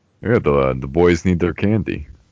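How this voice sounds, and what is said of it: Imitates another person's voice. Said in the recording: “I want to do my Kevin Nash impression ... That was a good impression”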